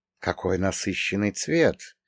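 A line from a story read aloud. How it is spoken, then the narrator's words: Muttering. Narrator (Russian): пробормотал он уже на русском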